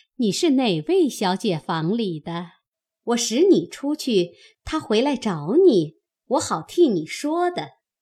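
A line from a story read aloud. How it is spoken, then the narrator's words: Laughing. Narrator (Chinese): 凤姐笑道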